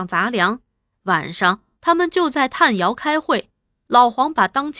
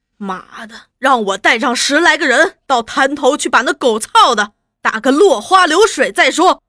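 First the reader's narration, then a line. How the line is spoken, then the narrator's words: Through gritted teeth. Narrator (Chinese): 三福，他咬牙切齿地说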